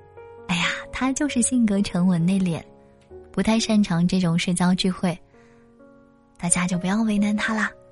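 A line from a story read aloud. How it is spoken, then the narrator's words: Forced cheerfulness. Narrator (Chinese): 小夏兴致低沉，可是她却仍然强颜欢笑，努力的替男朋友解围，不断的跟我们说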